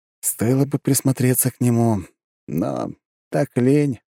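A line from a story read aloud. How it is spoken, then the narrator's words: Sighing. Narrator (Russian): вздохнул я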